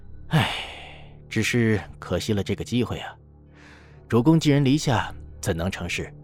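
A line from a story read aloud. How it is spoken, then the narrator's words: Low sigh. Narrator (Chinese): 孙乾…低叹一声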